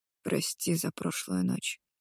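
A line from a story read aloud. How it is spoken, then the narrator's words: Mumbling into ear. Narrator (Russian): бормочет Миллер мне на ухо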